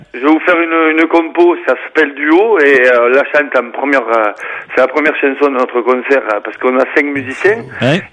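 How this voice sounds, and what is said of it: Regional Lot French accent. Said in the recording (French): “adore votre accent ... Un accent lotois.”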